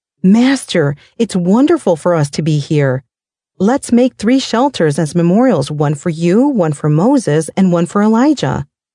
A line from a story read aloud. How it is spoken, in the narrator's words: Peter, not even knowing what he was saying, blurted out